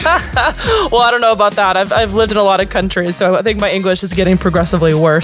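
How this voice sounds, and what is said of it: American accent. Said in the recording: “originally from the United States, as you might be able to tell by my accent”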